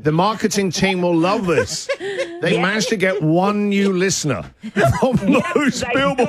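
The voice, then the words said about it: English accent. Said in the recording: “this guy sounds all right. I'm a bit partial to a Pommy accent”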